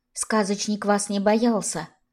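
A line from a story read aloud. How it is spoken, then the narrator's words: Whispered. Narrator (Russian): сказала Арина шепотом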